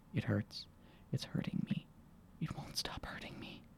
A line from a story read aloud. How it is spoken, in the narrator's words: she whispered again